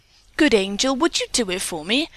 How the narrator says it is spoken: the boy asked eagerly

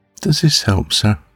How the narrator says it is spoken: she said quietly

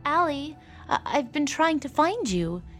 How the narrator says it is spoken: Amy stammered, trying to explain herself

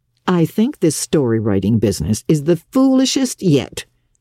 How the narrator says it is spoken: scoffed Marilla

